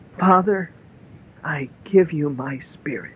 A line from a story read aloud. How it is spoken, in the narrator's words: Jesus cried out with a loud voice and said